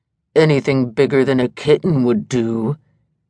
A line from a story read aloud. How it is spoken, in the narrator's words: sneered Gorgon